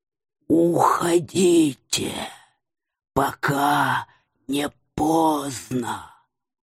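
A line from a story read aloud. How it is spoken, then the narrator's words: Broken hissing whisper. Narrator (Russian): посоветовал динозаврик прерывистым, шипящим шепотом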